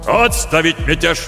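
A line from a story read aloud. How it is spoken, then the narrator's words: Admiral barking command. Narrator (Russian): рявкнул адмирал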